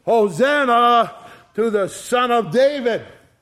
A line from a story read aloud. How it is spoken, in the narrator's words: they also shouted